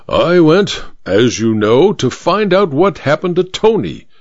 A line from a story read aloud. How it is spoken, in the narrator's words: said the judge through gritted teeth